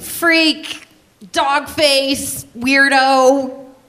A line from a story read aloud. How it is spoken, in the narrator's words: Kids would yell